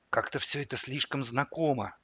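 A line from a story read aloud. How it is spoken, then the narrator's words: Whispered. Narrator (Russian): шепнул я стоявшему за мной Федору Ильичу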